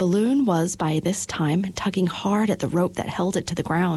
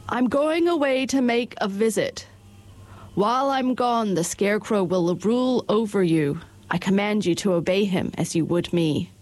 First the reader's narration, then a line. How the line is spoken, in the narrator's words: said to all the people in a loud voice